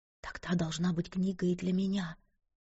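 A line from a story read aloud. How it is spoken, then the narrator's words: Whispered. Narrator (Russian): прошептала она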